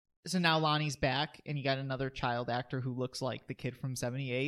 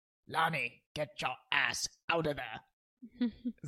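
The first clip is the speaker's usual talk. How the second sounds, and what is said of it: Imitates another person's voice. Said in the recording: “Is it a good impression? ... Sure. ... It's a good impression.”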